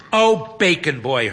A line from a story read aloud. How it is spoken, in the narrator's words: Hermione exclaims